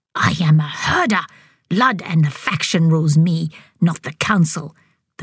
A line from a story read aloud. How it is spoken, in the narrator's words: snapped